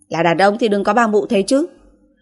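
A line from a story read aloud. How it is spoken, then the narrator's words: Angry woman scolding. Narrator (Vietnamese): cô tức giận quay đầu lại mắng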